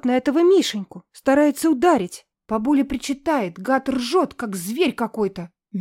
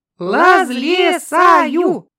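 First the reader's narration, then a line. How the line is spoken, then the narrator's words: Joyful shouting. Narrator (Russian): прокричали радостно Нюта и Андрюшка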